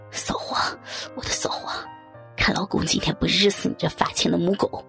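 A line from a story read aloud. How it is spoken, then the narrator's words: Panting crude cursing. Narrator (Chinese): 小刚喘着粗气，粗骂道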